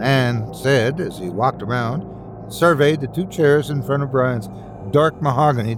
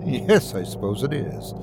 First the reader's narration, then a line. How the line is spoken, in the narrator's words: Murphy said with a slight laugh